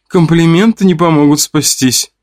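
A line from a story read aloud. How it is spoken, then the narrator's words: Giggling. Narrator (Russian): хихикала Вика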